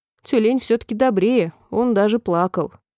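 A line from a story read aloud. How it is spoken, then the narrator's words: Sorrowful sigh. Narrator (Russian): Алиса горестно вздохнула ... и сказала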